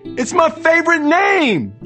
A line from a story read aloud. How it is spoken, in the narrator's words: Trey wailed